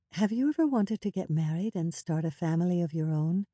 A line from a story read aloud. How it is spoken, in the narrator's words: in a soft voice, she asked